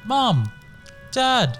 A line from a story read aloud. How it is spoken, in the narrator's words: Colin shouted